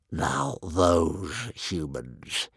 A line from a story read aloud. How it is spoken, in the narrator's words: he hissed